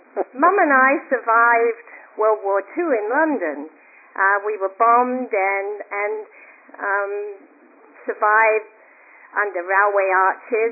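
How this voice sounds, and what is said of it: Noticeable non-American accent. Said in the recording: “I do have a funny accent”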